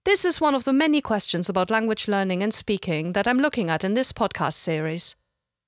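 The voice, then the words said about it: Slight German accent in English. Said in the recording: “I'm not a native speaker of English. I'm originally from Germany ... I have kept some of my accent”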